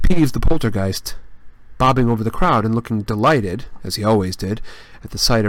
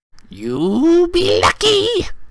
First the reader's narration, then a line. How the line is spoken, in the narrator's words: said a cackling voice